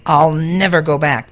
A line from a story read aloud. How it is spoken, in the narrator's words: the moon fox growled